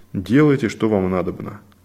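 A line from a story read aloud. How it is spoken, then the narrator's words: Calm. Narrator (Russian): спокойно сказал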